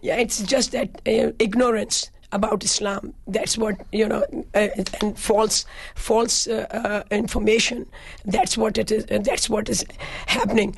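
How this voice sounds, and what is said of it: Weak, strained, nearly lost voice. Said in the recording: “I can't even talk. ... My voice is gone.”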